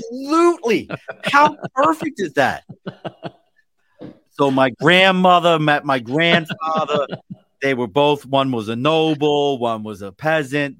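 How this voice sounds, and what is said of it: Baltimore accent. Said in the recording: “I have a horrible Baltimore accent.”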